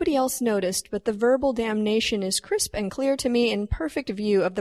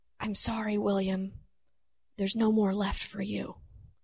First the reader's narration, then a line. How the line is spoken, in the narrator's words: Still composed but confused, the Reverend leaned in and whispered